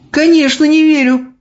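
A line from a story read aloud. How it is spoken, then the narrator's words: Exclaiming. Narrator (Russian): воскликнула Софи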